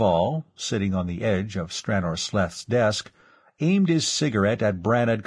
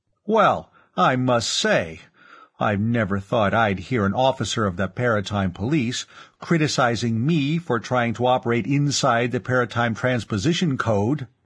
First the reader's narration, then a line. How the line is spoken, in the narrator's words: Brannad Clav exclaimed